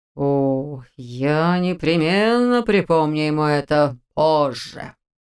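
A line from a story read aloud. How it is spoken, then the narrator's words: Ominous drawl. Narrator (Russian): зловеще протянул Розенталь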